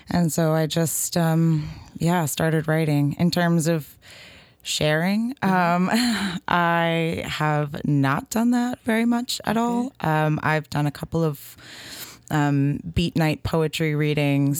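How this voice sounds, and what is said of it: Nervous voice. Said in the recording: “as you can probably hear in my voice, I'm ... a little nervous.”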